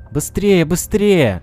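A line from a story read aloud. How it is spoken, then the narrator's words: Joyful boy shouting. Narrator (Russian): мальчик радостно кричал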